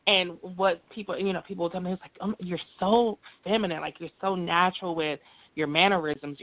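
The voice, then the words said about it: Soft, feminine, soft-spoken voice. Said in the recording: “my voice has always been this soft. I never had a deep voice ... my voice has always been feminine, very soft-spoken”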